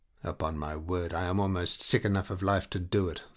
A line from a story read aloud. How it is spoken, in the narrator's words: the lieutenant said in a conversational tone